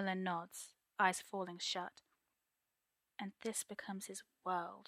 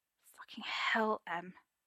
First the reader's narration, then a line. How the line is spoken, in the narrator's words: Arthur rasps out, voice husky with arousal